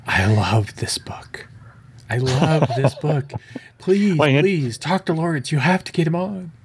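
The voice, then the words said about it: Imitates another person's voice. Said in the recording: “worst Angie impression”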